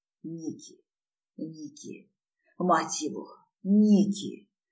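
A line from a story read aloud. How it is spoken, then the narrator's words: Hoarse passionate rasp. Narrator (Russian): хрипел я, умирая от того, как ощущались эти неопытные, но безумно желанные движения ее губ и языка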